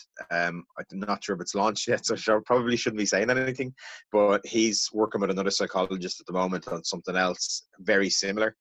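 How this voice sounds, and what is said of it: Irish accent. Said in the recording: “that great Irish accent of yours”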